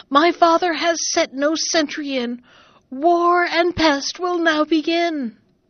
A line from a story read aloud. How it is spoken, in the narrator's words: she screamed again